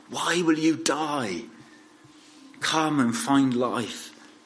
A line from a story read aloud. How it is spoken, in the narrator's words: he pleads with people, he says